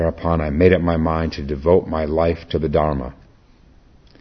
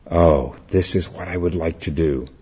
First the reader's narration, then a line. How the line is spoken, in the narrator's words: I was so moved and exalted that I sighed to myself, saying